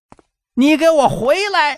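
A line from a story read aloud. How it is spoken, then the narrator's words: Shout from behind. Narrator (Chinese): 身后有人喊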